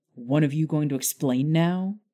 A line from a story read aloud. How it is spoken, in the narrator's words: Harry snapped impatiently